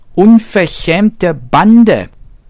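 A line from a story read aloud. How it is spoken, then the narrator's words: Bunny shrieking. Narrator (German): kreischte das Häschen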